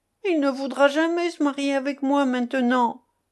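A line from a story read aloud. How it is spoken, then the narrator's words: Whimpering. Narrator (French): pleurnicha Joséphine en songeant à la scène du matin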